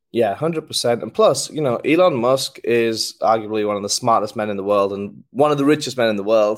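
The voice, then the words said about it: North Yorkshire English accent. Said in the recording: “exactly what your accent is. We have Sheffield, Birmingham. I think we had like a Yorkshire ... I'm from North Yorkshire. With a small town called Middlesbrough, northeast England ... is that a Yorkshire accent?”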